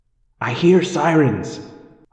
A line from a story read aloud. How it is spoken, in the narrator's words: I said urgently